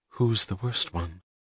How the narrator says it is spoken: She added, more quietly

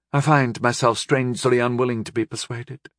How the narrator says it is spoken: Radin said evenly

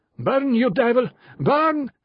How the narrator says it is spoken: shouted the male in Italian

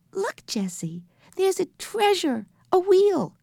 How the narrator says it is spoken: he cried happily

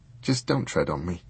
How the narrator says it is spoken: sighed Dunstan

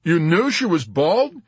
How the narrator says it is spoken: Yossarian exclaimed in wonder

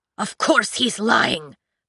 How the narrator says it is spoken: the doctor screeched, his voice breaking

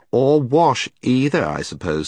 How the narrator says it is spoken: said Jill scornfully

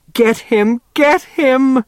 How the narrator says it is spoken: begged Niemer

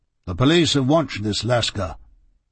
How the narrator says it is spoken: said Inspector Bradstreet

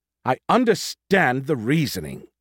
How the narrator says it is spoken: she snapped

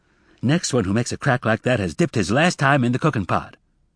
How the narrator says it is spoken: Emma snapped

